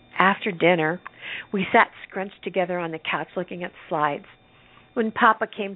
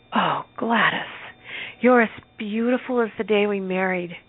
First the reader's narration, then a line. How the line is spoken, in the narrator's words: Papa gasped